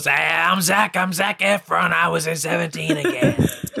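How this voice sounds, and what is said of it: Imitates another person's voice. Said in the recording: “do an impersonation”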